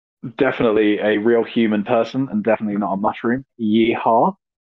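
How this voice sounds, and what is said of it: British accent. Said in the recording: “as you can probably tell from the accent ... British, British”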